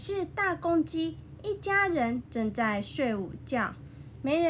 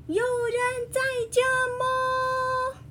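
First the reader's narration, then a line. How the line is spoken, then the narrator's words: Loud call. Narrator (Chinese): 他的叫声够响亮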